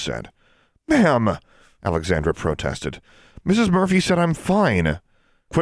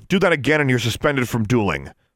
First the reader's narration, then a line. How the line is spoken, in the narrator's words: Miss Shirtliff snapped